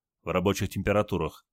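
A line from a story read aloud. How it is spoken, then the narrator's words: Plain. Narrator (Russian): ответил Олег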